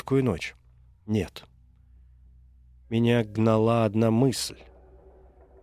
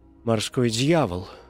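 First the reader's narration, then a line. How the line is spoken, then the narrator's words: Unsteady voice. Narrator (Russian): сказал я нетвердым голосом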